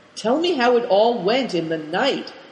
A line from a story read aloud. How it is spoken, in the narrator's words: he asked the boys eagerly